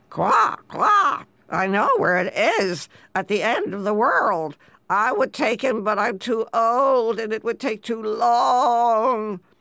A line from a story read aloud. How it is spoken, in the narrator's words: an old frog croaked